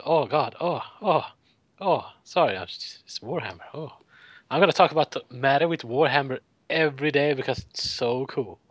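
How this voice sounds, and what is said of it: Breathless, panting excited voice. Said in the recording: “out of breath”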